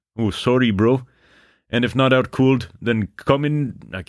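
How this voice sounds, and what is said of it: Bad put-on Canadian accent. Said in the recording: “Oh, yeah, he's Canadian ... I'm not gonna beslander the Canadians with my bad accent.”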